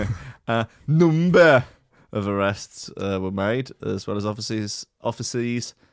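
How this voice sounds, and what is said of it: Usual voice. Nothing is said of it.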